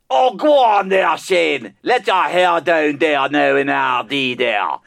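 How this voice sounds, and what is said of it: Put-on voice, deliberately bad. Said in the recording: “you're even sexier doing that ... he had to put on that voice. It was terrible”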